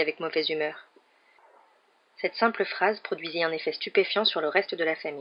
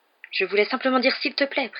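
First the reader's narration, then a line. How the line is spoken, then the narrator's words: Hurried clarification. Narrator (French): précisa Harry d'un ton précipité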